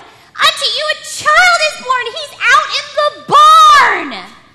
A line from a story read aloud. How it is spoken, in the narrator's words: yelled